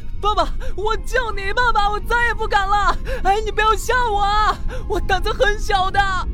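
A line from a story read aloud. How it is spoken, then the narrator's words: Panicked wailing shout. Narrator (Chinese): 由于太过慌张，他鬼哭狼嚎，全然不要面子，几乎是口不择言的大喊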